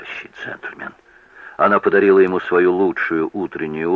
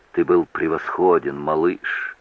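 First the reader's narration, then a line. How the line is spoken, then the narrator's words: Whisper. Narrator (Russian): прошептала она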